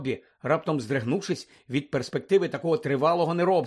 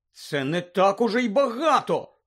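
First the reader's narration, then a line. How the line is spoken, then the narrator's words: Indignant exclamation. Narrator (Ukrainian): вигукнула обурено Герміона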